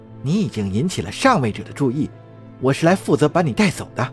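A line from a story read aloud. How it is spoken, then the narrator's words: Soft whisper in ear. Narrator (Chinese): 那姑娘附在他耳边轻声说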